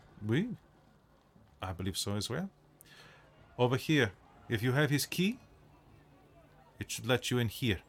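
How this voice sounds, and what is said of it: Convincing put-on accent. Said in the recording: “Why are you faking an accent? ... It's a good one.”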